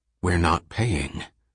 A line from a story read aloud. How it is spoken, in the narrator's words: Selden whispered